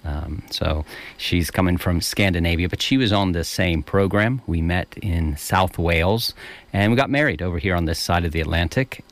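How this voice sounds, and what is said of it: American accent. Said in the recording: “the American accent I've kept”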